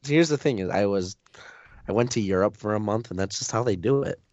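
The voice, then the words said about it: Rough, raspy voice. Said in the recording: “my voice sounds so much more sexy than it usually does, it's because I've been coughing nonstop for the past 4 days”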